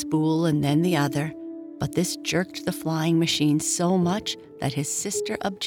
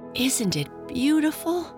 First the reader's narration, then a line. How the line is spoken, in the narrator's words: Janie cried